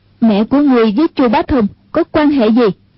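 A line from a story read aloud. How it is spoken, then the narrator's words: Shaken loud demanding question. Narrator (Vietnamese): Anh cô thân hình rung lên, cao giọng quát hỏi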